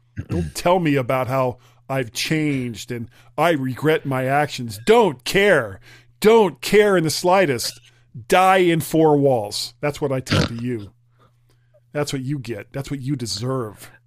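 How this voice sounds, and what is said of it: Emotional, angry ranting voice. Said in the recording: “I'm a little emotional about that ... before I get angry about something else”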